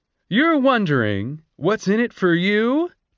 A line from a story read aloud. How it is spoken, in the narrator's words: chirped Lucky